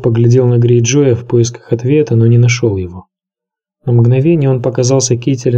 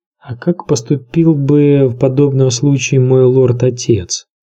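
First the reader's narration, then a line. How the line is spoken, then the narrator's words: Plain. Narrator (Russian): спросил он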